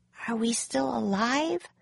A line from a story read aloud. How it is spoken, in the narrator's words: she whispered